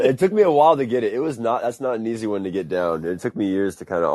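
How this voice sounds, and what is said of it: Usual voice. Nothing is said of it.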